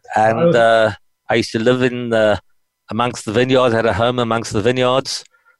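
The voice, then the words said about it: South African accent. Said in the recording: “you're from South Africa by your by your accent”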